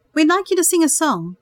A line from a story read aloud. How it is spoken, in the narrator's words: Peter announced cheerfully